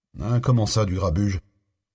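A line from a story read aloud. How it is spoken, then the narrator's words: Disgusted grumble. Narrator (French): grommela l'autre en faisant une moue dégoûtée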